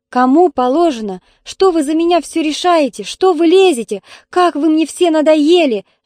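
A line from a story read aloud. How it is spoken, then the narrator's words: Scream. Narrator (Russian): закричала Таня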